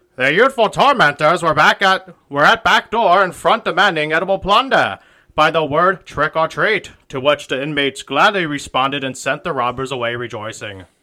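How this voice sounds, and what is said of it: Old-timey accent. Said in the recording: “That was your Canadian accent? ... That was just my old-timy accent.”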